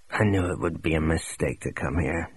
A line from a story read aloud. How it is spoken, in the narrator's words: he mumbled